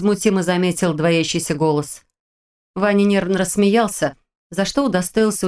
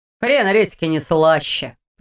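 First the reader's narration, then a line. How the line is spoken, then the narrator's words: Grumbling. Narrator (Russian): проворчал Ваня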